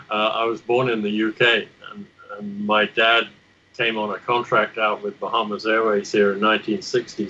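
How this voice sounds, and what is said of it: Faded British accent, some Australian, American. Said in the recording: “that British accent, or what remains of a British accent. There's a bit of Aussie in there, and I'm sure a bit of US in there as well.”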